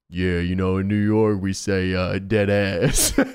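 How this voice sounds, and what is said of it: Low-voiced Low-Key impression. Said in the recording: “Doing a Low-Key voice is so difficult because when I go low in my voice, it goes into the southern accent.”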